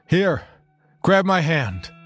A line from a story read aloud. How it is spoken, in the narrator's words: Captain Northington shouted through the wind